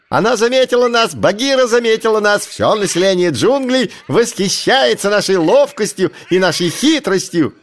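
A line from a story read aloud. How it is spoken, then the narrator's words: Ecstatic shrieking monkeys. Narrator (Russian): Обезьяны завыли от восторга и закричали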